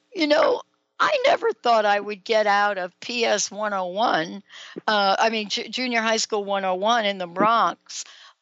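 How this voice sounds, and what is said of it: Slight New York accent. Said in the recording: “Can you still hear a little bit of my New York accent there”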